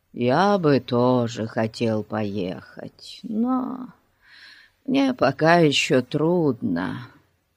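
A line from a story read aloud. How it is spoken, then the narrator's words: Sighing. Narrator (Russian): вздохнул Фати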